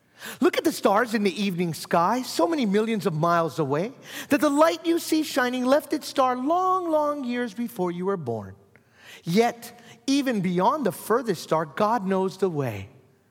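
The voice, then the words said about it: Storybook-reading teacher voice. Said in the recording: “I used to be a fourth grade teacher, so I'll put on my teacher voice.”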